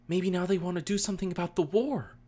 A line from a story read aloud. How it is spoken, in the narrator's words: Ty Lee exclaimed